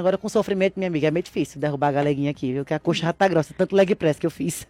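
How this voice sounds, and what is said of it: Pernambuco Brazilian Portuguese accent. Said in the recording (Portuguese): “De onde que será que é esse sotaque dela, hein? De onde que é esse sotaque gostoso ... Pernambuco. Petrolina, Pernambuco.”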